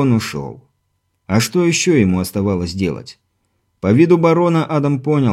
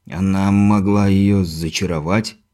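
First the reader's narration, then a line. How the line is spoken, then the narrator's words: Uncertain. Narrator (Russian): неуверенно произнес барон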